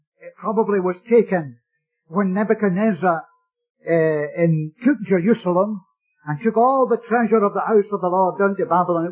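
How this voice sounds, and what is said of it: Scottish accent. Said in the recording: “I come from Scotland. I know that my accent doesn't betray me. I must sound like a Canadian by this time, surely. Nevertheless, no.”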